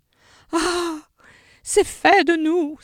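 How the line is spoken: Exclaiming. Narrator (French): s'écria-t-elle

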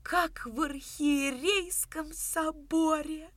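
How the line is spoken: Lisping reverent whisper. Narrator (Russian): Сюсюкая от полноты чувства, благоговейно прошептал Щукарь

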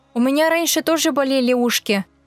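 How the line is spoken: Plain. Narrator (Russian): сказала Зайка Пуша

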